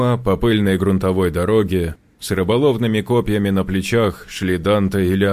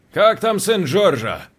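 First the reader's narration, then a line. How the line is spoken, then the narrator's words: Shouted while moving on. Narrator (Russian): крикнул Лео, не останавливаясь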